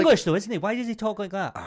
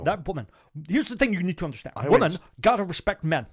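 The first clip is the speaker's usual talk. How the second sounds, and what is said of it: Imitates another person's voice. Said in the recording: “That's actually quite a good impression.”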